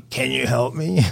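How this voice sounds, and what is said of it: Drunken raspy voice. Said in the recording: “this drunken, raspy voice says”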